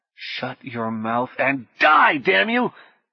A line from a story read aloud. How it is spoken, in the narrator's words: Apparently encouraged by companionship, the man resumed screaming